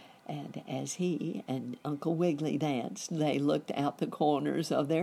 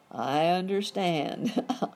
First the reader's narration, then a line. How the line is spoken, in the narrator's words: laughed Dr